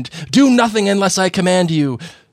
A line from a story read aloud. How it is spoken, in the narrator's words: Voldemort shouted to the Death Eaters